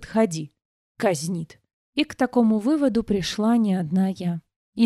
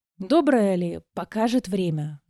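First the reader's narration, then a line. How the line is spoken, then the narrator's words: Sighing, pleading. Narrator (Russian): Вздохнула я и взмолилась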